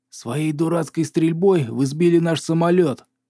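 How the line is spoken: Growl. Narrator (Russian): прорычал Кавендиш

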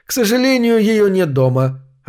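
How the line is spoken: Sad sigh. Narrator (Russian): огорченно вздохнул Фоули

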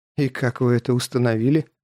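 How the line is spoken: Amused grunt. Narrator (Russian): Даже хмыкнул

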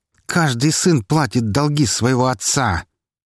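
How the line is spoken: Sharp hiss. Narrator (Russian): резко прошипел Меньшиков

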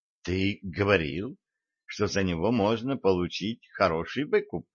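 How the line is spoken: Calm reminder. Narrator (Russian): спокойно напомнила Лейла

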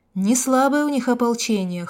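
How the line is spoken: Wry snort. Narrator (Russian): хмыкнул я

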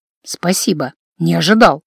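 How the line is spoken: Hoarse muttering. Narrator (Russian): хрипло пробормотал инквизитор

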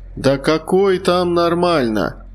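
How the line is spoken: Indignant lazy drawl, young man. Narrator (Russian): возмутился третий, относительно молодой и лениво растягивающий слова

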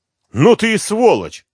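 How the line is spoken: Yelling. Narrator (Russian): она заорала

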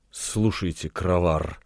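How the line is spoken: Seductive whisper. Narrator (Russian): шепнула искусительница

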